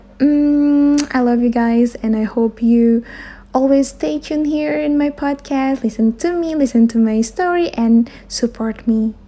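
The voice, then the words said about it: Short of breath, unclear voice. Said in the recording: “my voice is not that clear, you know, because it's kind of hard for me to take a breath ... I can easily get exhausted”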